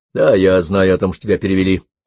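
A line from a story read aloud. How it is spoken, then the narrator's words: Tired. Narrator (Russian): устало сказал Джек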